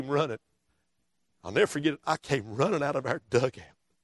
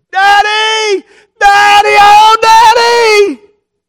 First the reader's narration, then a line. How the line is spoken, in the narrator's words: that little boy laid on that ground in that dirt, screaming